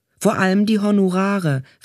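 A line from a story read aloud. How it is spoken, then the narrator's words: Man calling out. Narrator (German): rief einer der drei Männer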